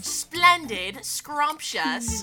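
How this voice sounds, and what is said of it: Put-on British accent. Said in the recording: “Should I speak in a British accent? ... You practice that in the mirror”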